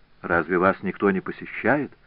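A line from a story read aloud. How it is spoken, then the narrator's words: Plain. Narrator (Russian): спросил Асканио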